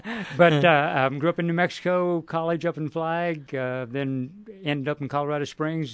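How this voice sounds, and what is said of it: Texas-border New Mexico accent. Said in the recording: “if you can hear my accent, too close to the Texas state line”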